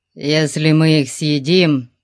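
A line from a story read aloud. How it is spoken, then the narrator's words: Grumbling. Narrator (Russian): проворчал он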